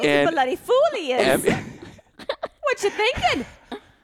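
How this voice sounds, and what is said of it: Put-on Scottish accent. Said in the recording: “has this, not British. ... It's Scottish. ... A Scottish ... accent ... Think of how many British and Scottish shows you have watched to develop this accent.”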